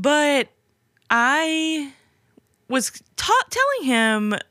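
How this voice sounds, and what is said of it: Usual voice. Nothing is said of it.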